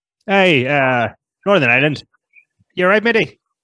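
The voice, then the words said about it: Put-on Northern Irish accent. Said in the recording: “Belfast is not. That's actually pretty impressive.”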